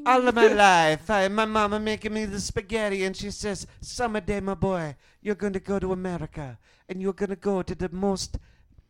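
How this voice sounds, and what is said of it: Put-on Italian accent. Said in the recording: “It's all much more endearing with an Italian accent.”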